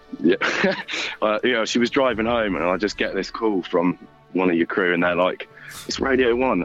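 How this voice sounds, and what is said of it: Slightly rough, hoarse voice. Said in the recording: “My voice is a little bit rough”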